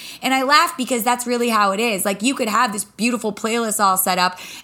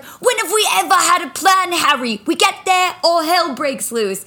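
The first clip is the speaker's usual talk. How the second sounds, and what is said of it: Attempts a character's accent. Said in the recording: “I'm going to butcher the accent”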